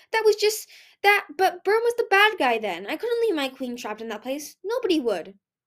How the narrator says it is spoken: Peril sputtered

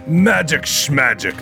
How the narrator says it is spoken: the creature snorted

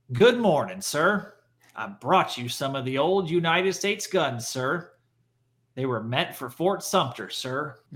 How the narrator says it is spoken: Robert spoke triumphantly to the Onward's captain and said

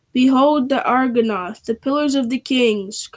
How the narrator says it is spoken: cried Aragorn

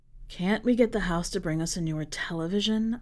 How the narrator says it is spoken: I murmur into his ear

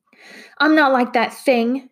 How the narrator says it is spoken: shouted Matt

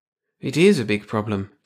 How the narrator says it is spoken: Jarvis sighed

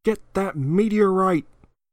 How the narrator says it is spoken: Dennis Hopper yelling

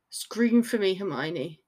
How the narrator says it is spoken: growled

